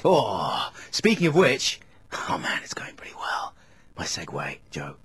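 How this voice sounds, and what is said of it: Creepy whispering. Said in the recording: “Stop whispering, it's creepy.”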